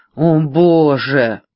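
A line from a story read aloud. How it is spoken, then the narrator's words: Moaning again. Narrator (Russian): снова простонал Бикс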